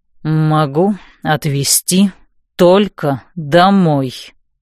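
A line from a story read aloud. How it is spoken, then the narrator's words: Through gritted teeth. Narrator (Russian): сквозь зубы процедил Нокс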